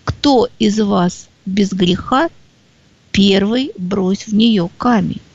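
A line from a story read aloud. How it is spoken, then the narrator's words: Calm, simple. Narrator (Russian): спокойно поднимается и совсем просто говорит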